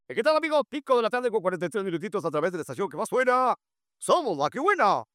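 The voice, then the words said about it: Old-time radio announcer voice. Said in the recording (Spanish): “Ante una voz de locutor de antaño ... Así le hacían los locutores de antes.”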